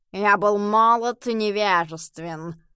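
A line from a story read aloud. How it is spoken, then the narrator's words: Hissed through teeth. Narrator (Russian): процедил сквозь зубы уличный кот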